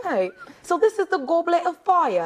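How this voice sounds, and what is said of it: Put-on English accent. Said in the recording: “Where is your English accent? ... That was a good accent.”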